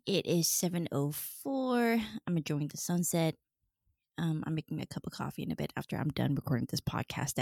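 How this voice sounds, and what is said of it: Voice deeper than usual. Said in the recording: “My voice is a little deep this morning.”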